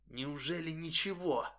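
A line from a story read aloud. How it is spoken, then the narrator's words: Whisper in the ear. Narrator (Russian): он прошептал мне это в искалеченное ухо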